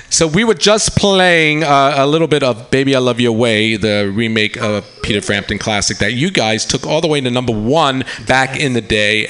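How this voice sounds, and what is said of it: New York accent. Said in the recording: “I still hear that New York accent. I love it.”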